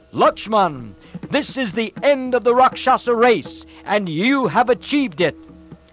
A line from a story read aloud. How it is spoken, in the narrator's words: Ram shouted